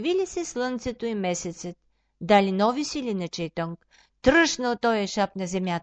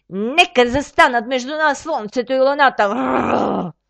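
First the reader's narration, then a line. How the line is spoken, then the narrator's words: Growled. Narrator (Bulgarian): изръмжал той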